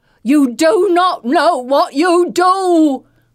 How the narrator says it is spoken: Mother Elena screams to them, now in English

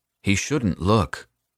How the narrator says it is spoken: Paolo said sullenly

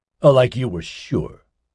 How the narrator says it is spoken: Nigel snapped back

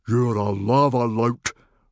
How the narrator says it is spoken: roared Stoic

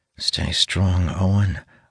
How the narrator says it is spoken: I murmur, taking deep breaths to steady myself

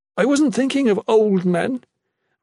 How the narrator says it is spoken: Regina sobbed

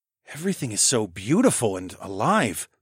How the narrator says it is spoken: I murmured to Emma

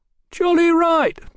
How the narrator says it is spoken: Tom chimed in, his voice shaking

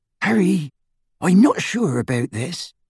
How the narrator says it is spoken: breathed Hermione

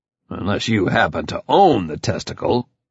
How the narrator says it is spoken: I growled

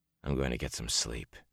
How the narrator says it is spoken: he muttered

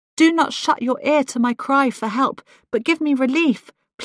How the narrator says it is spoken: pleaded one fretful petitioner

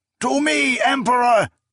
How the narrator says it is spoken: an aged voice cried

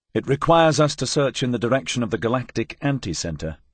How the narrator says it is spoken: I said

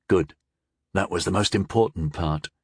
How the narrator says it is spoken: whispered back

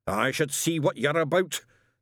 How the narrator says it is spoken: snarled Shadwell

